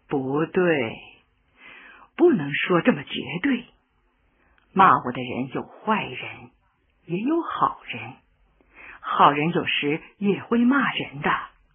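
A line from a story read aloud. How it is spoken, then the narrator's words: Amused, gentle. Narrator (Chinese): 毛泽东笑了，轻轻地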